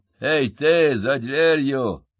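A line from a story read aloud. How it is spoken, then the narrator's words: Grumbling. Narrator (Russian): проворчал сержант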